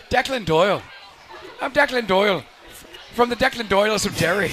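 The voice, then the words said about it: Put-on Irish gangster accent. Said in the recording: “Sounds like a bad guy from Peaky Blinders.”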